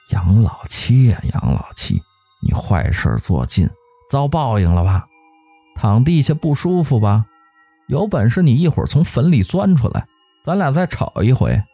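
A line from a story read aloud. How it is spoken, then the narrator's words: Inner muttering. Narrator (Chinese): 他心里还边嘀咕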